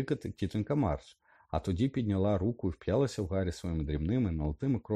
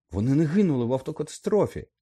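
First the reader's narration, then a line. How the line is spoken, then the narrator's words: Exclaimed, jumping up. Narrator (Ukrainian): вигукнув, зірвавшись на ноги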